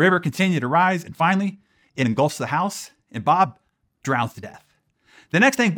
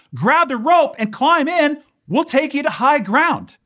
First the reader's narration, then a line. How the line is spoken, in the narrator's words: the people inside yell down over a bullhorn